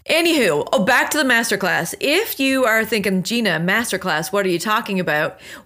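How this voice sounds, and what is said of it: Slightly raspy voice. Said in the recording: “You could probably hear my voice. I did a lot of screaming and cheering and hyping and talking. So bear with me if I'm a little bit raspy here today.”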